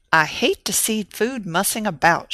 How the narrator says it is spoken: she grumbled

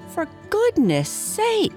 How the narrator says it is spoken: exclaimed

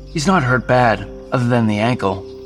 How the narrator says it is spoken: Jason said

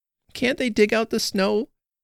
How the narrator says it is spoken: cried Wynne

